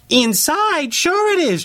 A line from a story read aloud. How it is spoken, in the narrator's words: chirped Reynard, feeling bolder now